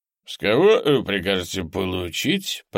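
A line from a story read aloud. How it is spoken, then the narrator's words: Drunken mutter. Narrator (Russian): пробормотал майор, сильно опьяневший к тому времени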